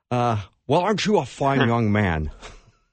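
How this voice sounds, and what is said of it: Imitates another person's voice. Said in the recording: “That's pretty good. Hey, that was a good impression. ... That's really good.”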